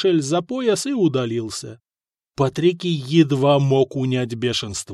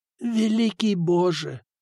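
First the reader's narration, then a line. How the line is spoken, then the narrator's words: Moaning. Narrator (Russian): простонал Патрикий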